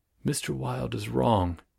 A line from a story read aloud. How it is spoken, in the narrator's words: murmured Constance